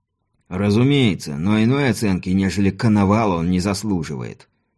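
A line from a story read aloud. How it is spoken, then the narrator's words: Through gritted teeth. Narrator (Russian): сквозь зубы процедил Дон Эрнесто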